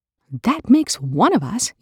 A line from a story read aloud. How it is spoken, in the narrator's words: Eli snaps